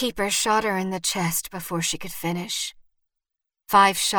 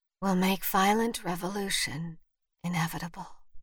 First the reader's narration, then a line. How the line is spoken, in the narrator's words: Vivian whispered